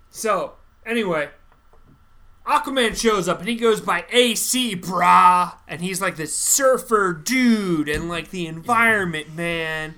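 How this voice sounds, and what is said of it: Loud, yelling voice. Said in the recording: “You don't have to yell.”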